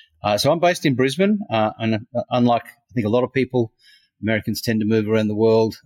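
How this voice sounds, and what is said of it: Australian accent. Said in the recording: “people hear your accent; they know you're from Australia”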